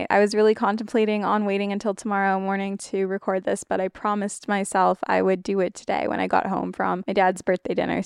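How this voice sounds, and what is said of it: Heavy vocal fry. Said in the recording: “vocal fry, which gets worse at night”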